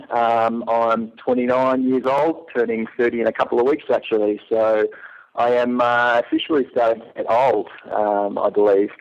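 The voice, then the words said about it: Australian accent. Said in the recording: “I'm from Melbourne, Australia, which is why I have a funny little accent going on.”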